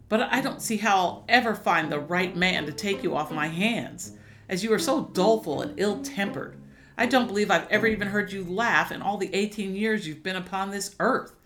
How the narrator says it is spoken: complained bitterly

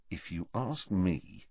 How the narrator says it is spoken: said Harry quietly

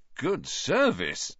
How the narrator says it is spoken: Ron said in an impressed voice

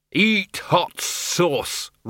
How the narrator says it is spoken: roared the Arch-Chancellor

